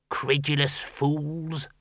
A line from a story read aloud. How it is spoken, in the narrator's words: muttered the senior wrangler